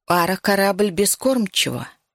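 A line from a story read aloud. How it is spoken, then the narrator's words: Plain. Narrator (Russian): сказала Нура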